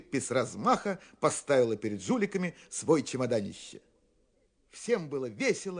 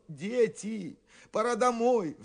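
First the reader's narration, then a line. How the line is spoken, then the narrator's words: Adults pleading. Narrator (Russian): взмолились взрослые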